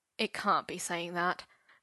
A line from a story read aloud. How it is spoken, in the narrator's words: Merlin muttered, confused by all the bullet points